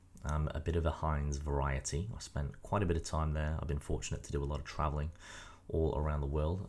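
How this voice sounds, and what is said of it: British accent. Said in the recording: “British with this accent.”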